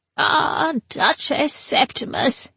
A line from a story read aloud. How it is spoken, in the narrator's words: he said in a tweedling old voice